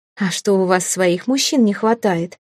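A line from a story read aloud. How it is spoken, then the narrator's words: Giggling. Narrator (Russian): хихикнула я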